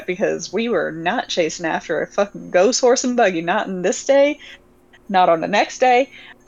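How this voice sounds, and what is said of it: Slips into a southern accent. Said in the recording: “I slipped into a fucking southern accent”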